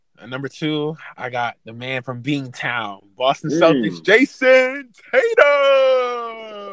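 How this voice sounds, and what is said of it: Sports announcer voice. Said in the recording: “that Boston Celtics announcer impression ... I need some water. That's why I could have been a little better”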